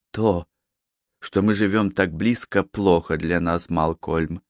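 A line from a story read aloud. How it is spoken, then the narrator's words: Soft, tender. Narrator (Russian): мягко сказала она, с нежностью глядя на него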